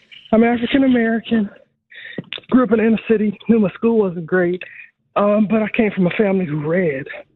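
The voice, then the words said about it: Out of breath, breathless speech. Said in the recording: “I'm out of breath. ... let me catch my breath for a second.”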